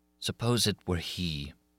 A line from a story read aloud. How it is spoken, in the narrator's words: she sighed and said in her turn